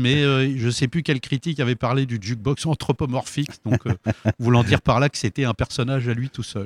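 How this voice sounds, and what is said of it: Parisian French accent. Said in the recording (French): “J'ai pu garder mon accent parisien”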